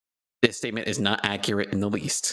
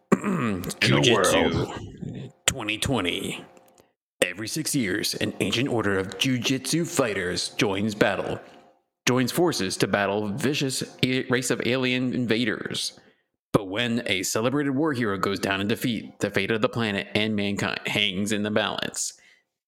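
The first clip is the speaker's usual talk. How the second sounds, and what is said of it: Dramatic movie-trailer narrator voice. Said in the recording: “Put on the movie voice”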